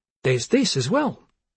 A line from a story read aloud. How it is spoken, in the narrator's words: she happily announced